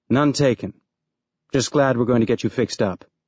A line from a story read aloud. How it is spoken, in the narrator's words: Holden said